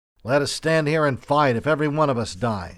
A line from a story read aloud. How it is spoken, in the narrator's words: exclaimed the orderly sergeant aloud